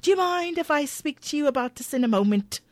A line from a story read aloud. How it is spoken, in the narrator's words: Shane relents but grumbles irritatedly